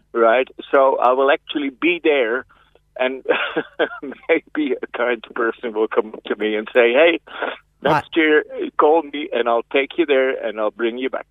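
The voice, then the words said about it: Dutch accent, not Irish. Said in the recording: “That's not a West Cork and it's not a copying accent ... I'm originally from Holland”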